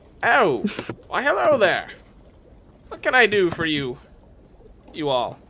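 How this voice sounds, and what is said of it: Froggy, croaky character voice. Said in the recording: “Does his voice sound overtly froggish? ... His voice does sound a little.”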